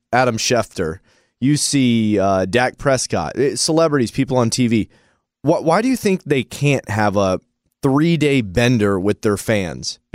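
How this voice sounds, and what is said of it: Hoarse, sick-sounding voice. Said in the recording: “they would sound like this and be sick for a week ... I went from being hungover to not having a great voice to I think I'm sick now”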